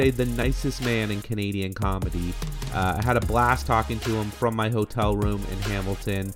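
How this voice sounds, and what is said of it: Usual voice. Nothing is said of it.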